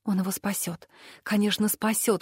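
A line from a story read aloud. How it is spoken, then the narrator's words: Prayer-like whisper. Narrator (Russian): шептала я как молитву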